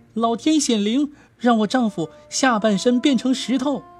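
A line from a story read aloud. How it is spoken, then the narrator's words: Sudden loud cry. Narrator (Chinese): 大叫一声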